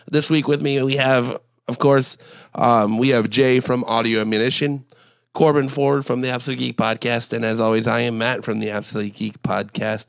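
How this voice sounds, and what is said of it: Sick, flu-affected voice. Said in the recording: “apologize for my voice. I am a little bit under the weather today. I've been fighting the flu since last Friday.”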